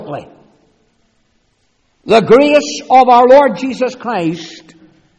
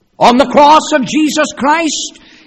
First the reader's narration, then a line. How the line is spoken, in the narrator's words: he cried